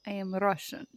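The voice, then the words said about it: Put-on Russian accent. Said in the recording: “I can do a Russian accent.”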